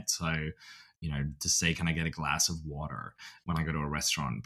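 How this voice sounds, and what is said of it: Australian accent with some American R. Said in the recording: “my accent, I think, is pretty good. My Australian, I've kept it ... that hard R, the R is something that I have to do performatively in this country”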